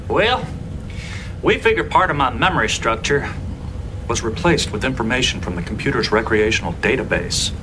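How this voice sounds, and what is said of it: American Old West accent. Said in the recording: “Specifically the files relating to the American 19th century West ... That would explain the accent.”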